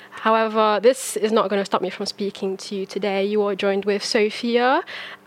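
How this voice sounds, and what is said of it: Hoarse voice with a cold. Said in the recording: “I have a cold ... I've woken up with a really, really bad sore throat.”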